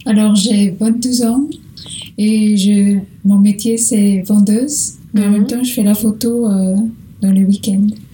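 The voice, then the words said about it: Slight Portuguese accent. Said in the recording (French): “tu as un petit accent, ... Du Portugal.”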